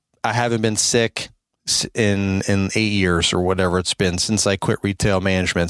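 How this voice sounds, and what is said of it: Slightly sick, under-the-weather voice. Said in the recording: “I'm still a little under the weather here ... my voice might sound a little bit different”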